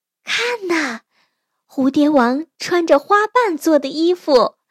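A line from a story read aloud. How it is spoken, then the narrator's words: Amazed. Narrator (Chinese): 女孩们惊叹地说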